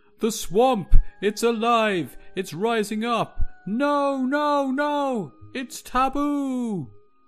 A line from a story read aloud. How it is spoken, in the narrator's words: one of the men, knee-deep in swamp water, screams